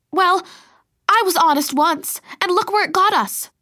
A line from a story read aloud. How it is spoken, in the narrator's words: I shouted